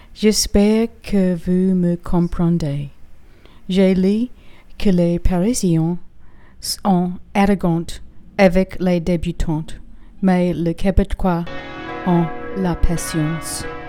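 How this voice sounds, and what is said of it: French spoken with non-native accent. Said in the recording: “Gotta work on the accent.”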